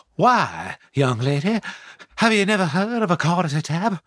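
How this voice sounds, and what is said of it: Courteous Southern gentleman voice. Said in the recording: “he does a southern, it's a very much like a southern gentleman ... it's a voice which has quite a lot of courtesy attached to it.”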